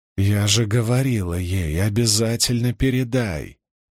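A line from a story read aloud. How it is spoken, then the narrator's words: Grumbling. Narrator (Russian): проворчала она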